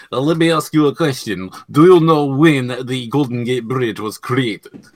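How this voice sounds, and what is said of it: Character voice with Russian accent. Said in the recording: “he's got a hotter voice ... that Russian accent ... The Russian accent, you know, it's hot”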